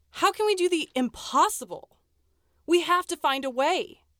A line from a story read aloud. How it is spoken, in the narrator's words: exclaimed Nellie